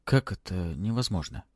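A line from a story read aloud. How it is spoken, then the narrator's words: Near-whispered question. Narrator (Russian): Почти шепотом спросил он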